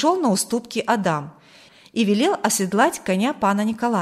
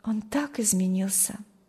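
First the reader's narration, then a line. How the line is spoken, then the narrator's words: Sighing. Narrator (Russian): вздохнула Маргита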